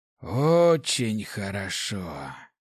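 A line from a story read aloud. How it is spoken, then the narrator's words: Tired mocking question. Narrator (Russian): Он устало выдохнул, с усмешкой спросил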